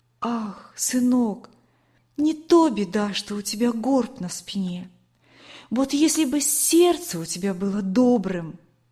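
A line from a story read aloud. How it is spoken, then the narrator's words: Tender. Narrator (Russian): она ласково говорила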